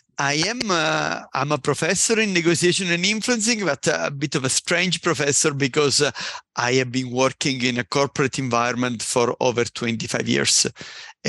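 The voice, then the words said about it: Italian accent. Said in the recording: “As you probably quickly spot from the accent, I am Italian indeed.”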